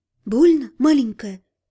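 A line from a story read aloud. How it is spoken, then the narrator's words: Gentle question. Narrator (Russian): ласково спросила она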